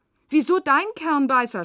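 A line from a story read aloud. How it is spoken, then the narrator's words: Shouting. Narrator (German): schreit Lea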